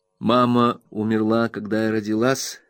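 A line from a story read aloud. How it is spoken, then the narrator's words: Calm. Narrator (Russian): сказала она, как всегда, спокойно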